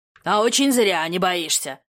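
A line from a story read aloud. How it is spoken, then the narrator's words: Angry growl. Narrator (Russian): зарычал хозяин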